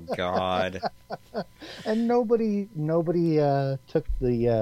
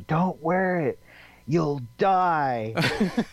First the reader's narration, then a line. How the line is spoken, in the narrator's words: one of the guys yelled out